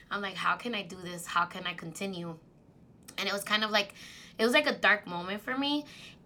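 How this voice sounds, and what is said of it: Teary, emotional voice. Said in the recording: “I'm getting teary-eyed now”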